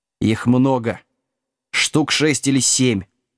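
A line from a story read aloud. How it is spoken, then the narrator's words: Growled. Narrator (Russian): зарычал Вилкинс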